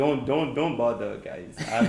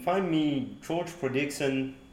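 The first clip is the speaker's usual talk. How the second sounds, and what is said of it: Put-on English accent. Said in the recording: “That's the English accent”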